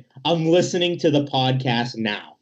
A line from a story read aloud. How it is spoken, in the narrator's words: he yells over at us, saying